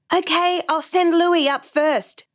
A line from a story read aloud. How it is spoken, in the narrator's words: Brandon shouted back